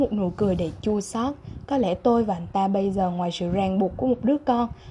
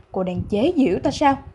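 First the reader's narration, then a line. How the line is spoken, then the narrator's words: Angry question. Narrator (Vietnamese): Âm Thao hỏi một cách giận dữ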